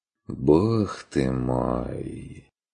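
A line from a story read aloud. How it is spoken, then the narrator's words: Heavy sigh. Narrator (Russian): Тяжко вздохнул Стрик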